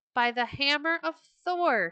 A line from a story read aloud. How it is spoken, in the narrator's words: he cried